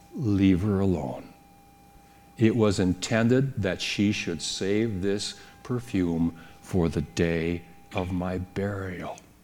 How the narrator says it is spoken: Jesus calmly says

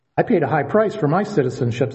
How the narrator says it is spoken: said the commander

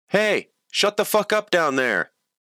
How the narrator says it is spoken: a guy shouted from his apartment

